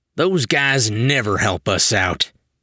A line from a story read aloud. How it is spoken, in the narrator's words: Elastoman grumbled